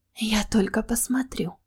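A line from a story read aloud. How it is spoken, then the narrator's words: Former slave whispering. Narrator (Russian): прошептала бывшая рабыня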